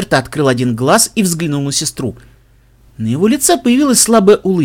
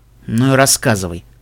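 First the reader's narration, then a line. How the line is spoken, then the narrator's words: Snorting. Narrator (Russian): фыркнул он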